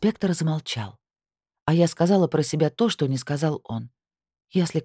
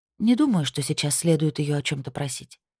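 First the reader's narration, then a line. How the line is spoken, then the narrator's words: Soft whisper. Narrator (Russian): тихонько шепнула я инспектору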